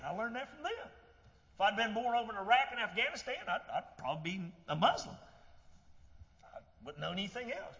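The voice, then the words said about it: Southern American accent. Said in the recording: “I got a southern accent? Because I was around people that had a southern accent.”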